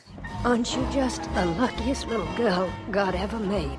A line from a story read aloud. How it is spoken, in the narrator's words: She whispers in her ear